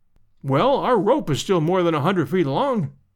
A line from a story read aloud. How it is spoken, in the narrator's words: I cried